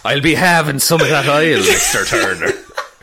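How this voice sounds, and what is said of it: Pirate voice with Irish accent. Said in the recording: “talking like a pirate... What is this Irish accent?”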